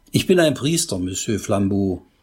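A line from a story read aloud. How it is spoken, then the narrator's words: Plain. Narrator (German): sagte Pater Braun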